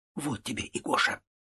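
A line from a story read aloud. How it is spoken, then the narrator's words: Undertone muttering. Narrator (Russian): приговаривая вполголоса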